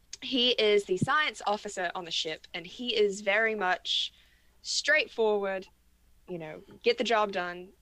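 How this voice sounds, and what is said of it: Put-on general British accent. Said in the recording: “I guess I'll do the accents ... I can't do a London accent, so I'm just going to do a general British accent ... I'm trying not to slip into Maryland”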